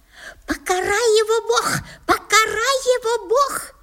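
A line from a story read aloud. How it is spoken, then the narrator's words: Loud shrill shriek. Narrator (Russian): визжала тетка на весь дом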